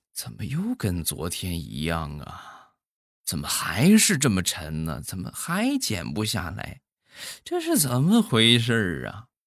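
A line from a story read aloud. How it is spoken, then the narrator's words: Muttering. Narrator (Chinese): 嘀咕一句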